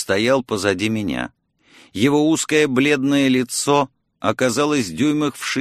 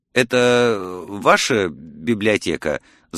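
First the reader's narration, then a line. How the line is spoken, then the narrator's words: Stammering mutter. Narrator (Russian): запинаясь, пробормотал я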